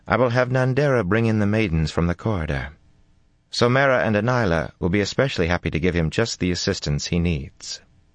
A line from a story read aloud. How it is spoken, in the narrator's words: Amis said flatly